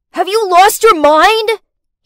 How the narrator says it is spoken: he shouted

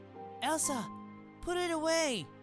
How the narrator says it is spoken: she shouted

